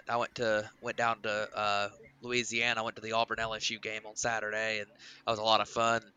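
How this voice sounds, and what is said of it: Slightly strained, worn-out voice. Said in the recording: “My voice is not 100% ... I was loud and rambunctious on Saturday night, and that got me. I got my voice down a little bit”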